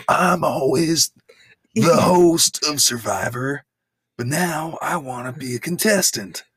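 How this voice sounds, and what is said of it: Imitated old man voice. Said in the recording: “This is my Jeff Probst impression. ... That's exactly your old man Bruce Springsteen voice. That's the exact same voice.”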